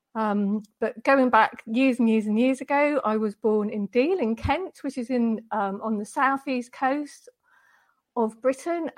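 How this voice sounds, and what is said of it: British English accent. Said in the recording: “I'm from the UK, which you might be able to tell from my accent”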